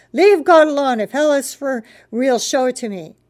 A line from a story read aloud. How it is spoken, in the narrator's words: I shouted at him